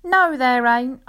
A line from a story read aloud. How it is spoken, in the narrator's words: I answered, laughing